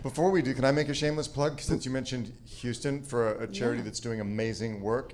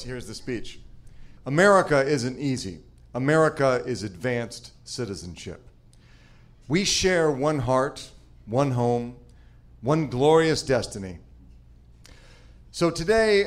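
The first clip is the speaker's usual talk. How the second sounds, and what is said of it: Mock presidential speech voice. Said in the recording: “in my best presidential voice,”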